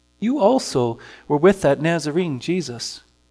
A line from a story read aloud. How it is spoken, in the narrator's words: she said